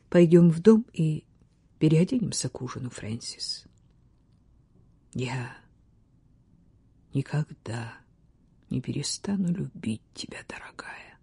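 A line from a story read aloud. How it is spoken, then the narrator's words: Quiet. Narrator (Russian): тихо произнес Ботвелл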